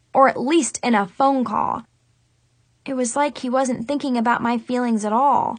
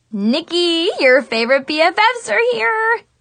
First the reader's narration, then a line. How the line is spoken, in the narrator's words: Zoe squealed happily